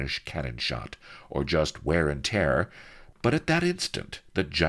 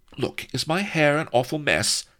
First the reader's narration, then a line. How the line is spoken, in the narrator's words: she cried to Blood